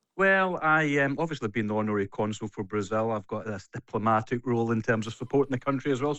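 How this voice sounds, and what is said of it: Local Scottish accent. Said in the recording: “given that you live here and you've got the accent”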